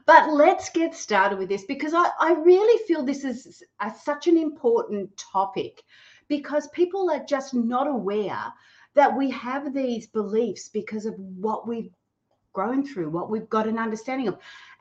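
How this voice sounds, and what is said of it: Australian accent. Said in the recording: “Gold Coast, Australia, that is. Probably could tell with my funny accent.”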